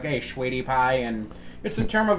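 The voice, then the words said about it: Exaggerated put-on accent. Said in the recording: “I was doing it with a fucked up accent.”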